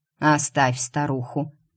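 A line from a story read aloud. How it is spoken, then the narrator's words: Grumbling. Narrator (Russian): проворчал Букис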